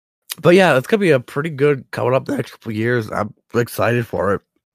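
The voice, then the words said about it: Sick, odd-sounding voice. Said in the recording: “I sound weird, it's because I'm sick”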